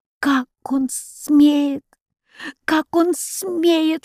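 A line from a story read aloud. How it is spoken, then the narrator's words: Muffled anguished whisper. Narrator (Russian): шептал он, опустив голову на руки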